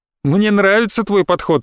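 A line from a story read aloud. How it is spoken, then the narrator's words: Cheerful shout. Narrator (Russian): весело крикнул Джархан Али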